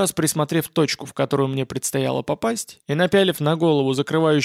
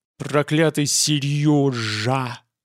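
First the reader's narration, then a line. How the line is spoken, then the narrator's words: Angry hiss. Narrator (Russian): прошипел Геллерт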